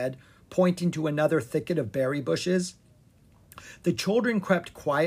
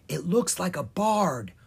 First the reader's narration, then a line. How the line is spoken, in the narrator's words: whispered Lucas